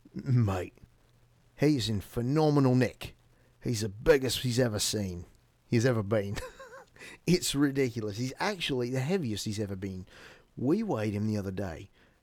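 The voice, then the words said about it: Put-on Australian accent. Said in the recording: “let's see if I can do an Australian accent. I apologize to any Australians”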